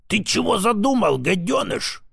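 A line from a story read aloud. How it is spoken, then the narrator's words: Hissing. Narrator (Russian): прошипел он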